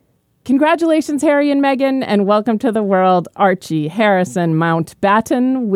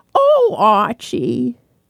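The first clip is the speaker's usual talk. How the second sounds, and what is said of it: Edith Bunker impression. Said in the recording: “here's my Edith impression.”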